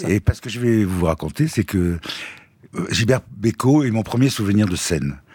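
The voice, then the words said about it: Slight southern French accent. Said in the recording (French): “Vous aviez un petit accent au début ... Mais là, je l'ai de plus en plus. En vieillissant, l'accent revient.”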